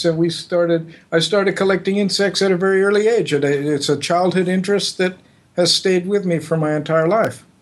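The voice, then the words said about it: Non-Australian, Californian American accent. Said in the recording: “that's not an Australian accent that you have”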